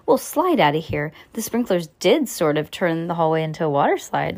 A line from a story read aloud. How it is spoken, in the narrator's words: Lucy exclaimed